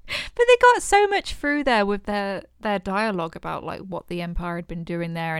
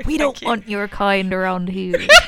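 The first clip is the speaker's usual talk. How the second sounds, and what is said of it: Put-on West Country accent, pirate-like. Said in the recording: “a form of like West Country accent... That's very good. You sound like some of my aunts... I just sound like a pirate”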